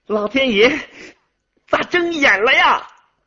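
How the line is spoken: Joyful loud shout. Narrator (Chinese): 高兴的大声喊叫说

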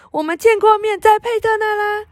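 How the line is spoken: Loud voice. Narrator (Chinese): 梅丽娜大声地说

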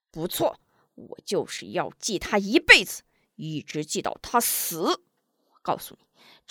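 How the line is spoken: Furious, through gritted teeth. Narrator (Chinese): 门霸一听张秀秀这是故意揭自己的伤疤，气得咬牙切齿

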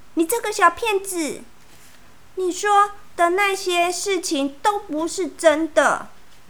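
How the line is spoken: Shouting. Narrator (Chinese): 米娜大叫

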